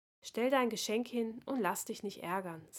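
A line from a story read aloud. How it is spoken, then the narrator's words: Soft words into ear. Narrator (German): sagte leise in sein Ohr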